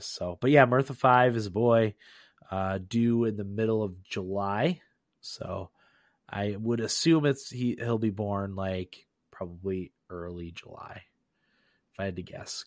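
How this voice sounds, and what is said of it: Slightly hoarse, off-sounding voice. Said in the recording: “you can probably tell that my voice is a little off ... I had laryngitis over the weekend, so I could barely talk at all”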